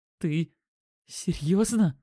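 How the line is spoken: Strained, voice cracking hoarse. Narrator (Russian): выдавил он, голос сорвался на хрип

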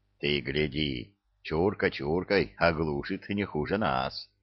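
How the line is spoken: Approving grunt from nearby. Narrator (Russian): Одобрительно хмыкнули за соседним столом

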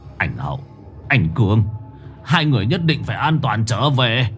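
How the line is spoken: Muttering. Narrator (Vietnamese): Ông Nhẫn lẩm bẩm

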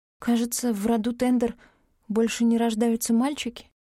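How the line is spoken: Uncertain. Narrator (Russian): неуверенно повторила я

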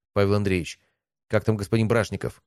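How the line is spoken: Plain. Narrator (Russian): спросил меня Пронин

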